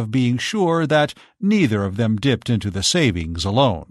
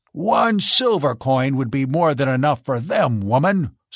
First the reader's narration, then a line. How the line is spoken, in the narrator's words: snapped Carl